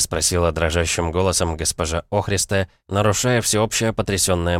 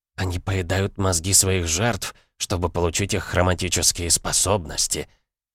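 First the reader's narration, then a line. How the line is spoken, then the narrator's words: Grave, sepulchral voice. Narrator (Russian): за могильным голосом сказала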